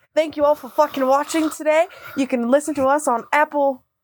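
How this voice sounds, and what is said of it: Australian accent. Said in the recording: “All right, Steve Irwin. ... say my outro in your accent.”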